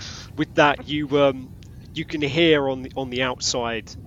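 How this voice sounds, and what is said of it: Usual voice. Nothing is said of it.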